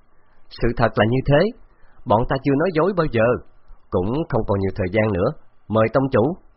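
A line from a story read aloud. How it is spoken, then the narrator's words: Loud laughter. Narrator (Vietnamese): Khấu Trọng cười lớn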